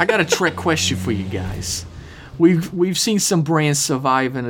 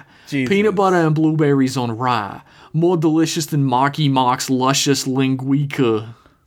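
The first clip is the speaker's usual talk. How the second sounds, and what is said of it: Put-on Brooklyn accent. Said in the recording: “I'm just doing like a Brooklyn accent”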